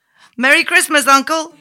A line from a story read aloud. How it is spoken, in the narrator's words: Suddenly, a cheerful voice cried